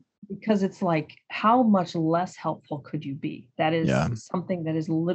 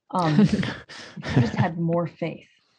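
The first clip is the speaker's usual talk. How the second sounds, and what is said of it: Sarcastic delivery. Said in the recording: “I'm saying that sarcastically,”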